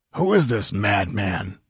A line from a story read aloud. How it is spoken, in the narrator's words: growled a bearded ruffian